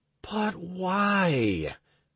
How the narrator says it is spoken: I sighed

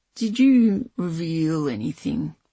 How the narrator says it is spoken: Tox said slowly

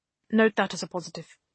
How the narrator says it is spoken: a man said

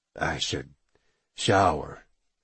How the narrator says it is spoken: he mumbled

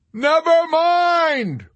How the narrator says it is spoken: wailed Yossarian

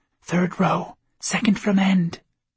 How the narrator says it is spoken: Pauline whispered

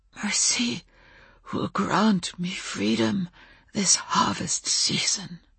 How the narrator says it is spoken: said the oak man hoarsely, in English this time

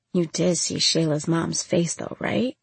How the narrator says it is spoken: Monday mumbled

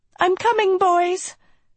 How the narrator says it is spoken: she shouted, and with a strained smile

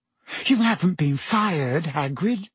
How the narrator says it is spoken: gasped Hermione

